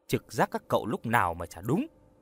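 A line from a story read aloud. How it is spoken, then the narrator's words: Smiling. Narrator (Vietnamese): Hoa mỉm cười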